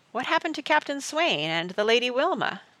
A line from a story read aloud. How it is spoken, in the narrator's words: asked Praiseworthy